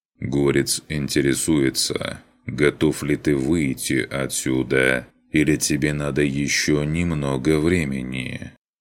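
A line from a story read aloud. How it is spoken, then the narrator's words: Mechanical yet emotional voice. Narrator (Russian): Механическим голосом, не лишенным эмоций, заговорил этот робот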